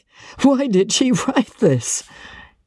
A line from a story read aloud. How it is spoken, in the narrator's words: He asked, checking his laugh with a supreme effort